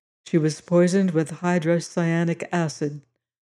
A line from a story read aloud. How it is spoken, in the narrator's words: my employer said gravely